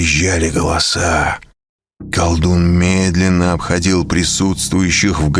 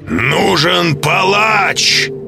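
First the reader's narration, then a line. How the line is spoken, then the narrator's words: Shout. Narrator (Russian): прокричал Асмодей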